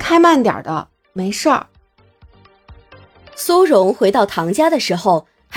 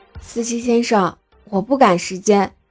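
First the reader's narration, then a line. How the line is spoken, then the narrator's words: Gentle, shaken. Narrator (Chinese): 他颤抖了下身子，温柔道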